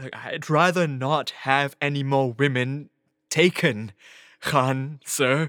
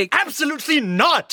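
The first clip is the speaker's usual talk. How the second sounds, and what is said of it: Raised, shouting voice. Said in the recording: “raise my voice”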